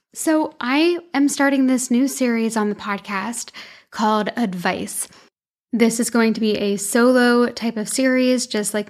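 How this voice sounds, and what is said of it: Raspy, tired voice. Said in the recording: “my voice is a little bit raspy today ... my voice is very tired ... we're going to be a little raspy today”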